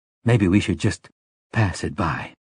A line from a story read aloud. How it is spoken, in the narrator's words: said, aware that she had dropped her voice to a near whisper